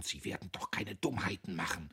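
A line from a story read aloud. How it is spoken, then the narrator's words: Dismissive laugh. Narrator (German): lachte wegwerfend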